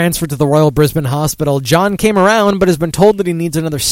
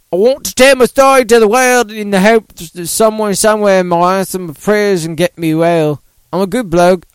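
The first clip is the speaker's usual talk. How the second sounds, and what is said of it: Attempted Australian accent. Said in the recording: “can I do an Australian accent? I don't think I can.”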